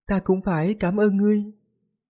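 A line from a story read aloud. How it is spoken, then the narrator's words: Gentle, smiling. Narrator (Vietnamese): Trong mắt của nàng có chút tiêu ý, dịu dàng, nói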